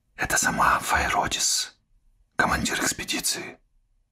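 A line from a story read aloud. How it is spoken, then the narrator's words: Whispered. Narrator (Russian): шепнула Пуна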